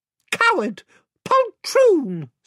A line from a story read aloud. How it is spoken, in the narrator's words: squeaked Reepy Cheep